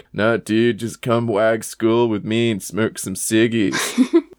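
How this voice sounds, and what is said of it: American surfer dude accent. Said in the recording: “I don't know why I said Australian slang in an American surfer dude accent just now”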